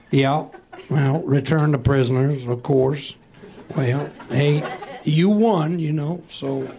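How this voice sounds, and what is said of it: Imitates another person's voice. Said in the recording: “my impersonation of Robert E. Lee”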